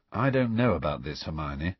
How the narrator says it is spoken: Harry muttered

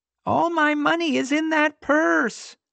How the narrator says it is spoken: the old lady wailed, a desperate last-ditch attempt

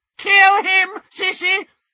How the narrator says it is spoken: shrieked Bellatrix

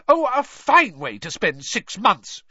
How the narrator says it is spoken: she shrieked

